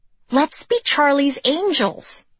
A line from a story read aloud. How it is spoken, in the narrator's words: Lexi cried in a burst of inspiration